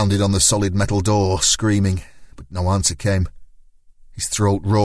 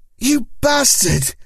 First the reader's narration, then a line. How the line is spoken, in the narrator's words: Jacinto yelled